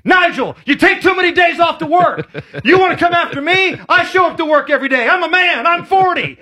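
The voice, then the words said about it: Yelling Mike Gundy impression. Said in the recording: “Former Oklahoma State head coach Mike Gundy ... Could you imagine getting a personalized message where he's yelling at you?”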